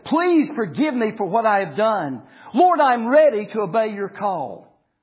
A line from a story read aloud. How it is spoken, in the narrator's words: he cried out to the Lord